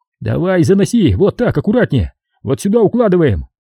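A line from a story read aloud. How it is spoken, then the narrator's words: Yelled. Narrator (Russian): Сашка заорал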